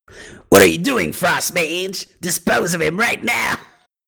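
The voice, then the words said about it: Stupid goblin-like villain character voice. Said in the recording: “the stupid Edge voice. It sounds like fucking like a mix between Blade and Skeleton. ... or, yes, like Cobra ... he's a little more goblin-y than Edge is”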